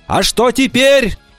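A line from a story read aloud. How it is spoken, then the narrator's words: Shouting while running. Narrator (Russian): на бегу крикнул он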